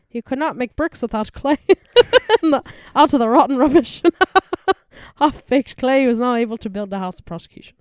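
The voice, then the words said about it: Put-on Irish accent, poorly done. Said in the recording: “if I said it in an Irish accent ... That was bad.”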